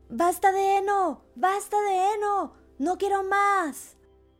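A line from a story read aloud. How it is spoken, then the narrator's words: Terrified, screaming loudly. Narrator (Spanish): Lleno de terror, gritó al fin lo más alto que pudo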